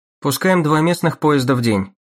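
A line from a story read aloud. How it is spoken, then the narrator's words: Dry, detached businesslike tone. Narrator (Russian): сказал Эдди Уиллерс сухим, безучастным тоном деловой справки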